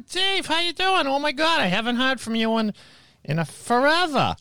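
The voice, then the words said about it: Imitated Boston accent. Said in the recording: “Boston accent”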